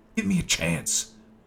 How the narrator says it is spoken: I yelled after them

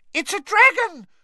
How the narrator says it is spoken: shrieked one of the first years, losing her head completely

